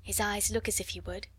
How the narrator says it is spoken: Sarah whispered back

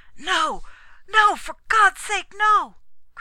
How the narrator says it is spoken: cried the prisoner shrilly

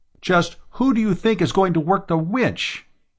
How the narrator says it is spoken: he barked

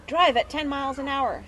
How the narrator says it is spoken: she had pleaded

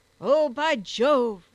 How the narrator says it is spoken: roared he

